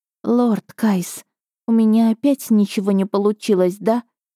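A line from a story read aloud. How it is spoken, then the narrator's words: Moaning whisper. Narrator (Russian): Я застонала и прошептала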